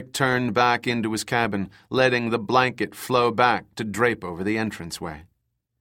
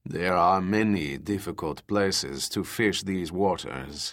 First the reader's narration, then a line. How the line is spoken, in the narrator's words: said in a surprisingly deep voice for such a small frame